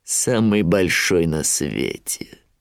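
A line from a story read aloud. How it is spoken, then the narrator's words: Grim smirk. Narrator (Russian): мрачно ухмыльнулся Шрам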